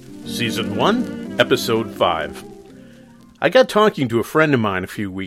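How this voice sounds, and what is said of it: Usual voice. Nothing is said of it.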